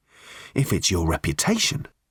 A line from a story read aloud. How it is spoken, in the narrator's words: he said quietly